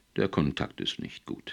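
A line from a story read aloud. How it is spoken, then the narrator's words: Plain. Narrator (German): sagte er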